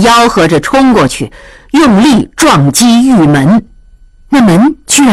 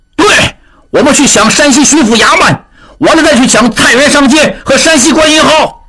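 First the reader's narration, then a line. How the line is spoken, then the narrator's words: Shouting in chorus. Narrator (Chinese): 犯人们受到他的蛊惑，一起喊道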